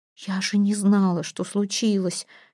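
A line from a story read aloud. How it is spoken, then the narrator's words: Whisper. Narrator (Russian): шептала Эйра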